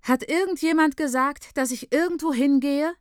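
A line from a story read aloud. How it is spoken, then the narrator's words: Calling out. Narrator (German): ruft Scheins Frau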